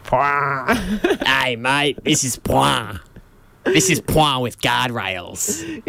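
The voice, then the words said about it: Put-on Australian accent. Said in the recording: “You say it in an Aussie accent.”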